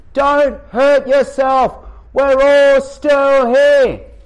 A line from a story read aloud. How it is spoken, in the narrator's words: Paul called out to him